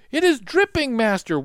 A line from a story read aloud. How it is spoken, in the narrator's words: one cried